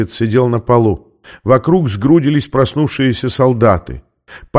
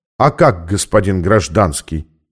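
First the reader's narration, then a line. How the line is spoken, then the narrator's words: Calm SS officer's reply. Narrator (Russian): спокойно ответил эсэсовец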